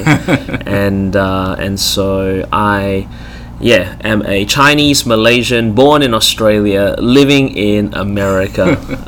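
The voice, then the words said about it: Australian accent. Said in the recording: “you sound like you're from Australia. ... I was born in Melbourne. That's the reason my voice is this way.”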